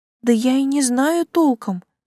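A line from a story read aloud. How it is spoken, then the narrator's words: Sighing. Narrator (Russian): вздохнула Жанин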